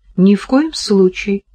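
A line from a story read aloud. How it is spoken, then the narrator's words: Calm. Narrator (Russian): спокойно ответила Кира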